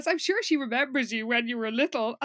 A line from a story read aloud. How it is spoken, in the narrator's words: Amy has to sort of stop herself laughing out loud and says